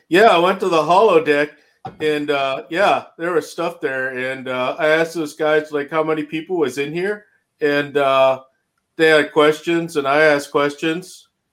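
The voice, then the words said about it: Put-on Canadian accent. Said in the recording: “You should read it in a Canadian one.”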